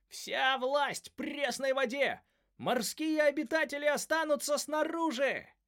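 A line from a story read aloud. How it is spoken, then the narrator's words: Crowd of creatures yelling. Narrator (Russian): Несколько оборотней аллигаторов, некоторые в зверином обличии, другие в человеческом, орали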